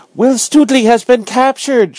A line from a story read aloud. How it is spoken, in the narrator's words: cried